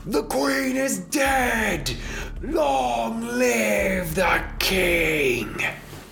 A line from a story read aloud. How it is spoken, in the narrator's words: And they all scream